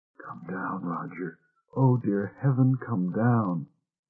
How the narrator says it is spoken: She whispered

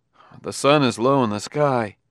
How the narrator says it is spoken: He said uneasily

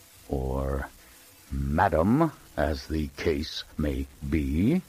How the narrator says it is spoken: added slowly and viciously

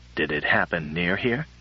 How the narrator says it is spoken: I asked anxiously

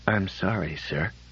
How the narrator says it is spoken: When Norman could manage to talk, he whispered

